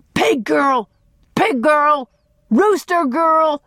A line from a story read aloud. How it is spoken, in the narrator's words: Dan shouted once more